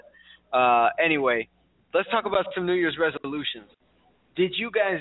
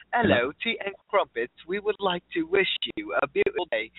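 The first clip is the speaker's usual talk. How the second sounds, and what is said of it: Put-on British accent. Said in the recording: “she's British. She has this British accent ... the accent ... People just want to hear the voice”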